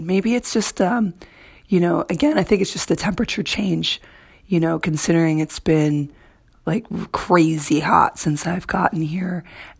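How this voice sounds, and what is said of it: Slightly hoarse voice. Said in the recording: “as you can hear in my voice a little bit, I am a little hoarse ... I had a little frog in my throat”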